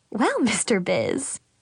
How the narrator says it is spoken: mom giggled

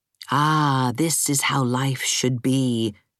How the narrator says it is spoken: purred Dora's kitten

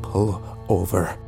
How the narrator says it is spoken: I said quietly

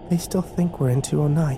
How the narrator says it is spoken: Kimber whispered

